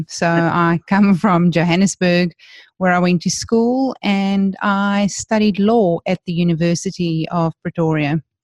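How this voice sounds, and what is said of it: South African accent. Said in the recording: “I know I hide it well, but given my accent, you would never have guessed that I was born and bred in South Africa.”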